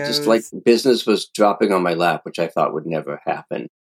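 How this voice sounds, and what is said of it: Tough guy accent. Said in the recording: “there's the accent, too ... You have a tough guy accent.”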